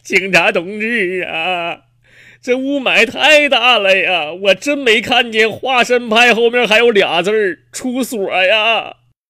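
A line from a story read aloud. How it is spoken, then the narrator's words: Tearful complaint. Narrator (Chinese): 男子就哭诉了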